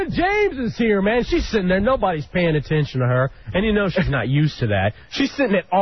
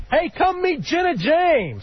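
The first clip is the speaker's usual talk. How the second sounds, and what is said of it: Yelling at top of lungs. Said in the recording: “I'm yelling. ... you're just yelling like at the top of your lungs.”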